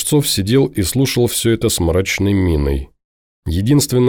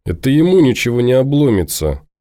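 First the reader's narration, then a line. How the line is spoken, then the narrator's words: Grumbling mutter. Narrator (Russian): пробурчал Сергуня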